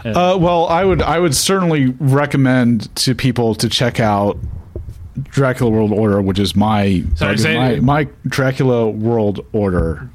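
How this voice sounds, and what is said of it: California Valley accent. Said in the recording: “my horrible California Valley accent, and words like world... just get swallowed up in that”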